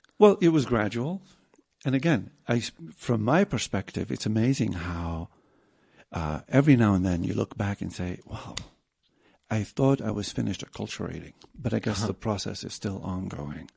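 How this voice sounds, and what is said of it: Non-native English accent. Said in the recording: “some aspects will never go away, accent included, you know, because I didn't grow up here”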